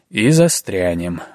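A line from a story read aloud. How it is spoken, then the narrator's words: Gloomy foreboding. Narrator (Russian): мрачно напророчил другой сибиряк Михеич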